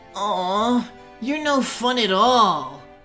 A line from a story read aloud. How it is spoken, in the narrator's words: one boy whined